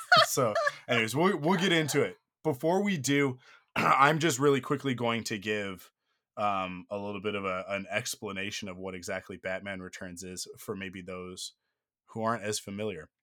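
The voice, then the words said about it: Sick, strained voice. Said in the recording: “my voice is starting to show, I am technically sick right now ... hopped up on cold medication and warm liquids and cough drops ... if my voice starts to go”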